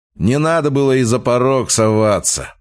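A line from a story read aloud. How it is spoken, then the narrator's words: Husband grumbling. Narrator (Russian): проворчал ее муж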